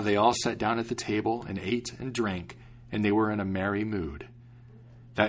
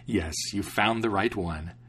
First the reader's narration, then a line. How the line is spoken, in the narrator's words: the young king laughed and said